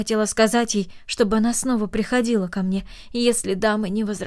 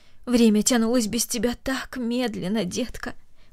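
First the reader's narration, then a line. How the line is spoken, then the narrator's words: Tender. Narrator (Russian): добавила она нежно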